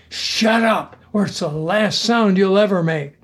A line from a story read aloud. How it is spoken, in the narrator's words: loudly whispered